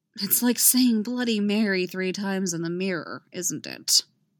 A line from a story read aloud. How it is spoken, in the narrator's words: Stiles mutters